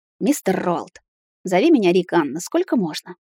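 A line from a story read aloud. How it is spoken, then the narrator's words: Quiet reply. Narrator (Russian): Тихо ответил чернокнижник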